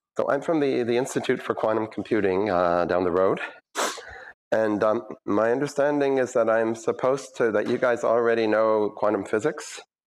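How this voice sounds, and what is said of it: Scratchy voice from a cold. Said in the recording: “my voice is a little scratchy. I had a cold last week”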